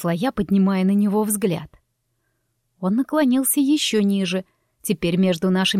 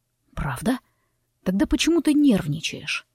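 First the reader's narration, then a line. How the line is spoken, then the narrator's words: Deceptively gentle question, male. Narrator (Russian): Обманчиво ласковым тоном поинтересовался он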